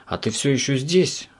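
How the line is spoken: Sigh. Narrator (Russian): вздохнул он

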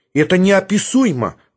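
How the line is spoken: Exclaiming woman. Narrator (Russian): воскликнул юноша, оказавшийся женщиной

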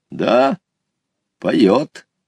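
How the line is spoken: Calm grandfather. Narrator (Russian): спокойно ответил дедушка

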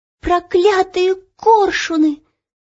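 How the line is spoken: Shouting. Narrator (Russian): закричала Ело

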